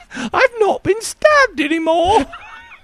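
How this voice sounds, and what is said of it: Put-on English accent, Monty Python-like. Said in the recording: “Every time I do an English accent, it sounds like Monty Python... it's not that good for a hot lady voice.”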